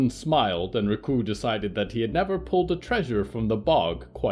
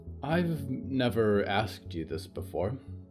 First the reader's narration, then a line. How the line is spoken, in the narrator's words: Nolan said quietly